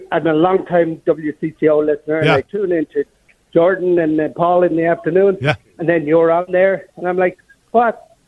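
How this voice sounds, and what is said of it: South St. Paul Minnesota accent. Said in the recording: “that South St. Paul accent really coming through there”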